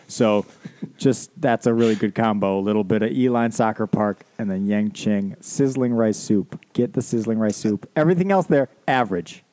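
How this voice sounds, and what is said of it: Wisconsin accent, local TV commercial tone. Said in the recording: “Wisconsin accent does not usually come out, but it kind of came out there. ... just a little like you were talking to Raymond and Vincent on a local TV commercial.”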